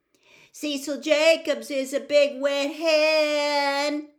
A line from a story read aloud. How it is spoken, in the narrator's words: I yelled suddenly